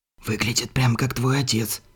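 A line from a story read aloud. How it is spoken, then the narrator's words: Suspicious whisper. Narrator (Russian): с подозрением прошептал Перетти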